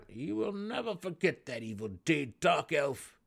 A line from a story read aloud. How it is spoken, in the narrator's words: the Serf Nebun declared through clenched teeth, an angry edge evident in his voice